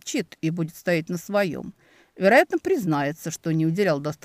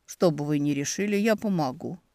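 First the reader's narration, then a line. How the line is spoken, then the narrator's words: Quiet. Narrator (Russian): тихо произнес Демьян Еремеевич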